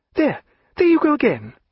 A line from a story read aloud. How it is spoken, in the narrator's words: cried Diana